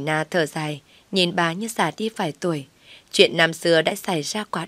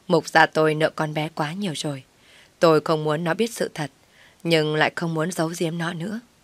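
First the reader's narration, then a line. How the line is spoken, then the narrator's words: Suppressed sigh. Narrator (Vietnamese): Mục phu nhân nén tiếng thở dài nói tiếp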